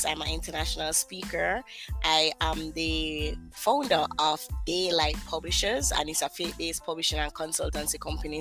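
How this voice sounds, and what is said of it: Jamaican accent. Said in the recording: “I know that accent somewhere. I know that accent ... I am from Kingston, Jamaica”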